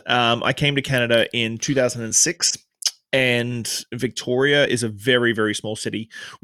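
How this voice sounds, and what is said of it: Australian accent. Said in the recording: “So I came to Canada from Australia. Obviously, you can tell I haven't got a Canadian accent.”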